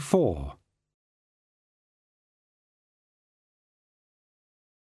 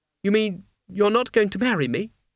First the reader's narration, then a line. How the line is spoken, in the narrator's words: she said